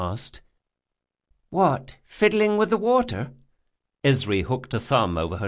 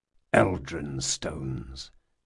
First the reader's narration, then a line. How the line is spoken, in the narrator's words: muttered Conar